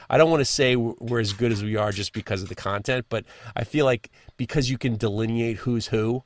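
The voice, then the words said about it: New York accent. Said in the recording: “I got a New York accent”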